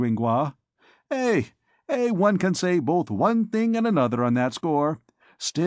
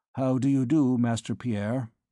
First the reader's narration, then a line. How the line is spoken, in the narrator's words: The priest broke the silence at length by saying, in a tranquil but glacial tone